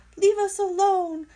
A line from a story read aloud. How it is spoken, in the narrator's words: squeaked Dart